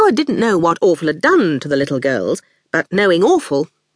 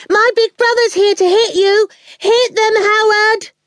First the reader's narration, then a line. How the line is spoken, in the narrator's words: Awful was shouting